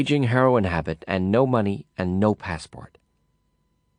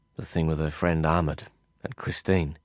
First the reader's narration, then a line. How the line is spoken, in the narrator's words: I murmured